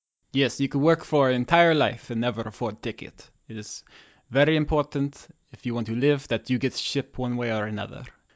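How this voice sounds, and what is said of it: Put-on Russian accent. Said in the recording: “is hard to say with a Russian accent”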